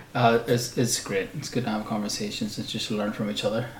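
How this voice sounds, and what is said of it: Hoarse, fading voice. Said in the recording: “I think I'm losing my voice.”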